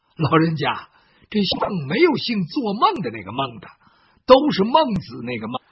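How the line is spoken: Laughing. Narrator (Chinese): 包公就笑了

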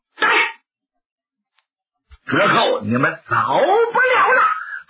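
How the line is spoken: Loud shout. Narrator (Chinese): 刘世杰高声喝喊

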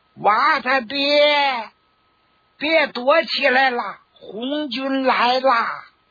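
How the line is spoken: Clear woman's shout. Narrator (Chinese): 那女人的声音，她清脆，又是宁静的清晨，她的喊声使得满山遍野都响起了红军来了的声音

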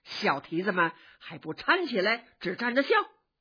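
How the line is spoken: Laughing scold. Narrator (Chinese): 贾母笑着骂

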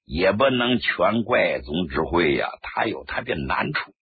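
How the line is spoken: Laughing. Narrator (Chinese): 朱德一笑

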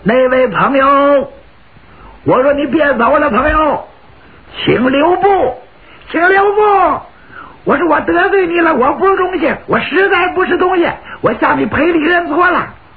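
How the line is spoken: Shouting. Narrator (Chinese): 两个人一边在马上骑着，俩人一边喊

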